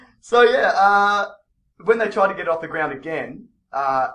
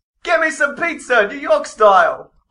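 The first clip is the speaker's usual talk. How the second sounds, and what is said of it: Put-on New York accent. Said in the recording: “my New York accent”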